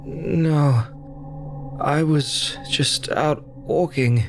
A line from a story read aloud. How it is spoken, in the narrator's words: he groaned